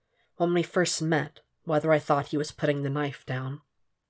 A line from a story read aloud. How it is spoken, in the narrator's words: said quietly